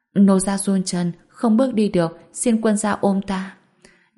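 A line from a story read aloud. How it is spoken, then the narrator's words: Small trembling voice. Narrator (Vietnamese): Úy San bị trêu chọc, âm thanh nhỏ bé run rẩy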